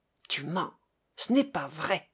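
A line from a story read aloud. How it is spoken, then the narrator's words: Furious stammering. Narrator (French): bégaya-t-il, les poings si fermés que les ongles lui entraient dans la chair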